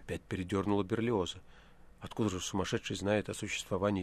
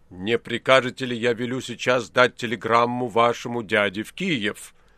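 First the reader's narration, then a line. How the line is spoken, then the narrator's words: Shouting through cupped hands. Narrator (Russian): профессор прокричал, сложив руки рупором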